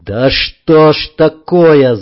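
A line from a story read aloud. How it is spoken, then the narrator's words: Angry yell. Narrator (Russian): заорал зло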